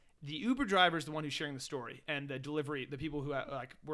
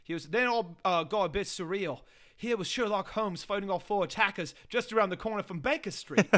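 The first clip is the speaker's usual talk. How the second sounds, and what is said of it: Put-on British accent. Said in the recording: “I'm gonna do the accent.”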